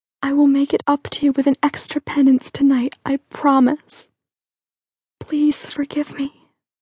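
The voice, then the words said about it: Quavering whisper. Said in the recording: “try to control the quavering in my whispered voice.”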